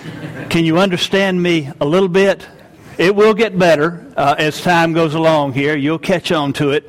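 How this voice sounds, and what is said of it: Southern US accent, slow speech. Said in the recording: “get used to the dialect ... I'm from the southern United States, a place called Georgia, and we are known to be slow talkers ... We're slow talkers.”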